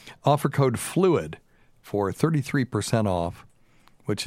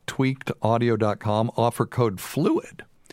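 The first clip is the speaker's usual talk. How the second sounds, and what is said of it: Voice cracks like a teenager's. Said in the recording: “my voice cracked ... What am I, 13?”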